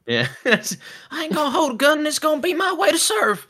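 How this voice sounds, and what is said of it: Southern accent impression, Hacksaw Ridge. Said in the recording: “I keep wanting to do the Hacksaw Ridge impression of him ... has a southern accent.”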